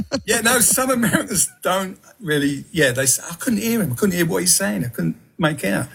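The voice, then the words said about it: Southeast London English accent. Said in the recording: “I was brought up in Peckham, London, southeast London, so that's my accent.”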